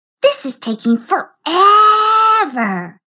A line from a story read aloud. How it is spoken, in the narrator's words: whined Juanita